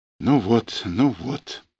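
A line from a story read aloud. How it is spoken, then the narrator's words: Muttered. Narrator (Russian): пробормотал Чубарев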